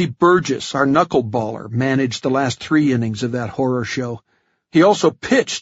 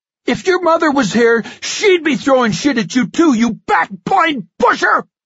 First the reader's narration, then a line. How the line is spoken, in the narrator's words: I screamed